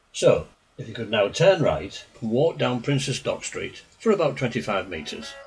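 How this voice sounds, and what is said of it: Hull accent. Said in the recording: “This pronunciation is just one of Hull's many dialectic traits ... I hope you're managing okay with my accent.”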